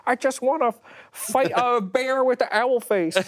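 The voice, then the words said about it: Impression of a co-host. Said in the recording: “that's a good Tim impression.”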